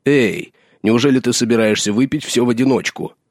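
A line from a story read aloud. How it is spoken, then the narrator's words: Exclaiming. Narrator (Russian): Халдор воскликнул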